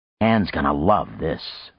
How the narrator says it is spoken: Frank muttered

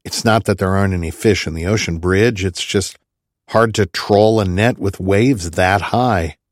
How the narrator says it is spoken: sighed

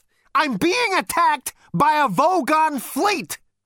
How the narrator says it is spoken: cried Zaphod

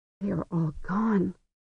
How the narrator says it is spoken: Sesarok whispered

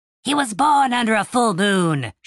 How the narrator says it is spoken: shouted the kobold

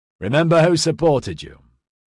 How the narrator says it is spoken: Balog said in a loud, jovial voice

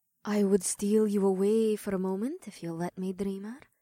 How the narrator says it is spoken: the Dodo woman whispered in a conspiratorial tone

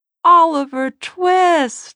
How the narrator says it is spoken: she cried

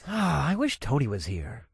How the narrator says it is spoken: I sighed

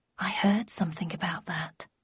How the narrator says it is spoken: I murmured

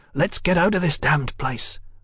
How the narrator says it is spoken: he hissed

